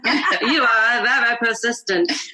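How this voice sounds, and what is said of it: Strong put-on Italian accent. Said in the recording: “in a very strong Italian accent ... that's your Italian accent”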